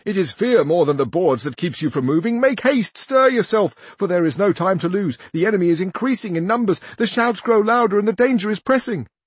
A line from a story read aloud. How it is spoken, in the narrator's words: cried another